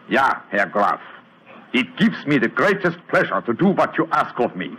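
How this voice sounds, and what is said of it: Convincing put-on foreign accent. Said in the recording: “And my accent, you will find it reasonably convincing? ... Extremely so. ... Splendid, Herr Holmes. Splendid.”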